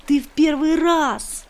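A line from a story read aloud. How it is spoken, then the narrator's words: Joyful question. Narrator (Russian): радостно спросил он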